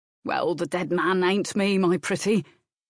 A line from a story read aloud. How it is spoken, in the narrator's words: the groom chuckled